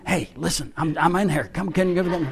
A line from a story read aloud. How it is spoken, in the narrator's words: You're whispering